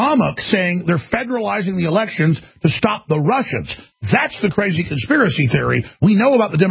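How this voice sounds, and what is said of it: Usual voice. Nothing is said of it.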